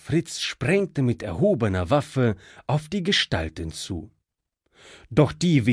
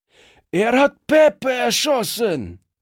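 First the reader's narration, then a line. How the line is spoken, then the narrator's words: Thug shouting. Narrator (German): schrie einer der Strolche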